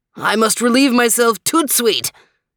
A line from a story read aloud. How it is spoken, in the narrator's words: yelped